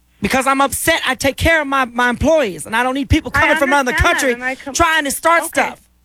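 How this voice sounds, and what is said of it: Raised, angry voice. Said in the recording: “raising your voice”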